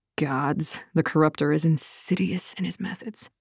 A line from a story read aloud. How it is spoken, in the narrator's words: Darina muttered